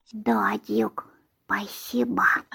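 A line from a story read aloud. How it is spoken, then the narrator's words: Fervent whisper, young girl. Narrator (Russian): прошептала горячо девочка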